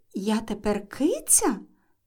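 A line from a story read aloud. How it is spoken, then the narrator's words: Quiet question. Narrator (Ukrainian): тихо запитала Ельвіра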